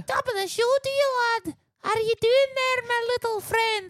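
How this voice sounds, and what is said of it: High-pitched voice, Irish accent. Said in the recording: “you're a very high-voiced ... a little squirrel with an Irish accent”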